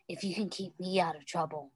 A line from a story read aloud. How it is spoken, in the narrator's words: Styles said gently